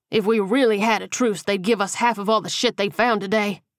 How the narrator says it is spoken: Mario spat

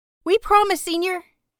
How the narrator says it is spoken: the littlest one chirps

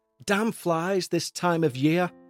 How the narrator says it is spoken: shouted Rosa, as she relentlessly whacked away at what seemed like a pretty substantial swarm

